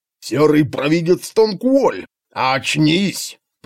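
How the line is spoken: Low voice roaring in ear. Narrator (Russian): проревел в ухо знакомый низкий голос

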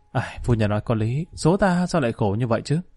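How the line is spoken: Sighing. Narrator (Vietnamese): Lý Kỳ thở dài nói

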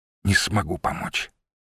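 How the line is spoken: Quiet. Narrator (Russian): сказала она тихо

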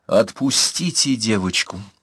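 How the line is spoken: Icy voice. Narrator (Russian): Ледяным голосом сказал Трипольский

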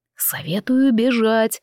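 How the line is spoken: Whispered close to ear. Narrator (Russian): прошептал Эндел, наклонившись к моему уху

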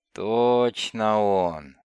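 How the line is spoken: Muffled grumble. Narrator (Russian): Глухо проворчал смокер

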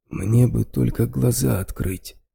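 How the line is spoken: Injured man, hoarse. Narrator (Russian): хрипло произнес мужчина с поврежденным лицом

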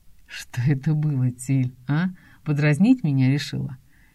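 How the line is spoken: Deceptively gentle, menacing. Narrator (Russian): Интересуется он обманчиво ласковым тоном, за которым скрыта острая сталь

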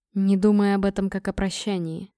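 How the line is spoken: Quiet gentle. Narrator (Russian): тихо сказал Торг

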